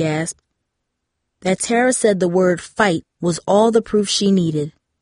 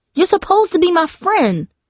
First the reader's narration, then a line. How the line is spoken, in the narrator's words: Darcy exclaimed